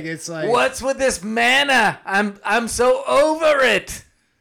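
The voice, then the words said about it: Comedic Jewish-accented character voice. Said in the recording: “that your Jewish impression? ... That was my Mike Myers from early Saturday Night Live.”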